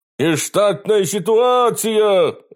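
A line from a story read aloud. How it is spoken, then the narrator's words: Alarmed shout of an owl. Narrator (Russian): закричал с ветки филин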